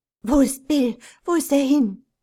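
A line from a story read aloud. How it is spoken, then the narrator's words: Breathless mother asking. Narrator (German): fragte die Mutter atemlos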